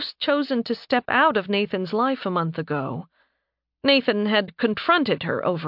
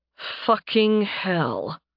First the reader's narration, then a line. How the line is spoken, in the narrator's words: Nathan muttered